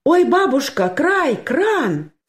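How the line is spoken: Sudden cry. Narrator (Russian): скрикнула вдруг Анюта

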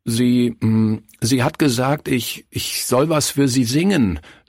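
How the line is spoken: Stammering. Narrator (German): stammelte er

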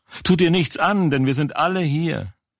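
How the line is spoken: Loud call. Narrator (German): Paulus aber rief laut und sprach

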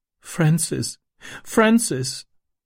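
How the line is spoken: Sobbing. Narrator (German): schluchzte sie

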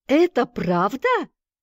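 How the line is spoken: Surprised exclamation. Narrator (Russian): воскликнул его удивленный товарищ

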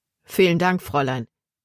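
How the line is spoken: Plain. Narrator (German): sagte

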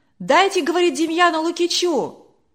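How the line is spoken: Shouting from crowd. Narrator (Russian): кричали из других рядов

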